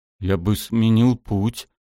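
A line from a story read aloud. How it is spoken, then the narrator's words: Trembling voice. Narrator (Russian): дрожащим голосом сказал Дэра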